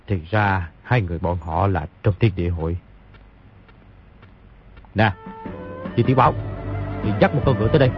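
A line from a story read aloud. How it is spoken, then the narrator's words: Muttering. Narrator (Vietnamese): lẩm bẩm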